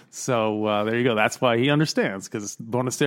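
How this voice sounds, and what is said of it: Usual voice. Nothing is said of it.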